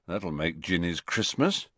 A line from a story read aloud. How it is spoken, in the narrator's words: muttered Fred